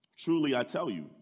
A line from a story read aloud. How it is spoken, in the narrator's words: Jesus answered